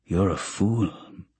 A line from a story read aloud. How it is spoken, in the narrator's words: he mutters